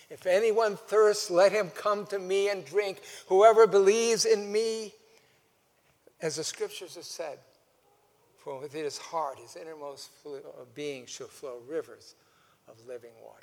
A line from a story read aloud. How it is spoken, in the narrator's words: Jesus stood up and cried out